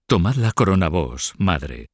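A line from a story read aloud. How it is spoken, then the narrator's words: Plain. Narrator (Spanish): dijo a Mahó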